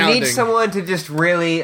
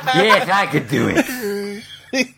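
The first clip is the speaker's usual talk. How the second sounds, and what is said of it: Creepy character voice. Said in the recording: “That's my creepy voice.”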